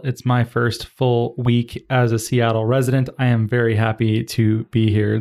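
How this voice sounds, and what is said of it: Cheerful NPR-style radio voice. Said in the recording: “You sound really happy as you say that ... my NPR voice”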